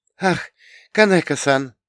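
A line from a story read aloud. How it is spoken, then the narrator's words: Exclaiming. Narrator (Russian): воскликнула она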